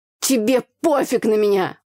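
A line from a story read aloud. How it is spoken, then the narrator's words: Shouted outburst. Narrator (Russian): выкрикнул брат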